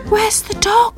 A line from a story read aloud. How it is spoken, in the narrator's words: asked Perky shakily